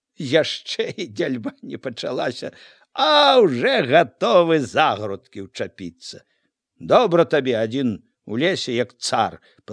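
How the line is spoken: Laughing. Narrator (Belarusian): Ляснік Міця засмяяўся

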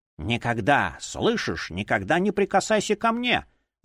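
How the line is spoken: Hissed with hatred. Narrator (Russian): зашипела она, не отрывая ненавидящего взгляда

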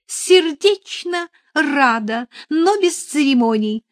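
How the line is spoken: Playful exclamation. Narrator (Russian): озорно воскликнула она

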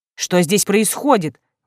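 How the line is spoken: Exclaiming. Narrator (Russian): воскликнул Дейрон

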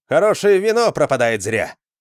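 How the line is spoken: Cheerful shout. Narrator (Russian): весело крикнул Джаренс

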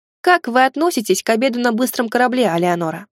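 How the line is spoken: Plain question. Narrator (Russian): спросил я

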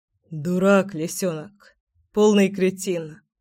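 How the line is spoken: Hoarse joyless chuckle. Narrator (Russian): Хрипло и совсем невесело усмехнулся гром

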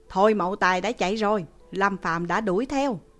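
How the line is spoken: Even louder. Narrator (Vietnamese): Hàng Phong nói lớn tiếng hơn nữa

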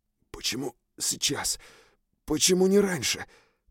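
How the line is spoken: Barely-moving whisper. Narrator (Russian): прошептал я, еле шевеля губами

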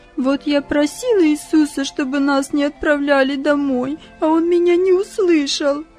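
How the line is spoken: Sobbing. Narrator (Russian): И снова всхлипывание

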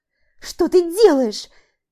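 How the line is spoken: Shrill squeal. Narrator (Russian): Взвизгиваю я

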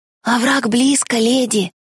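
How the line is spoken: Young boy's fearful whisper. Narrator (Russian): с суеверным страхом прошептал младший паренек

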